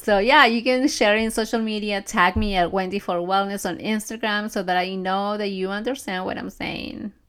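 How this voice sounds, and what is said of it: Speaks with a noticeable accent. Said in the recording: “my speech or my accent might get in the way. Maybe not everything is so clear”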